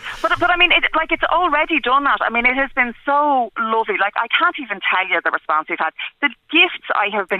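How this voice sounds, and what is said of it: Blackrock accent. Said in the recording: “It's the BlackRock accent.”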